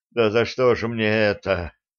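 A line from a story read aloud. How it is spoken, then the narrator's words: Exhausted breathless exhale. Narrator (Russian): Смахивая пот со лба, выдохнул он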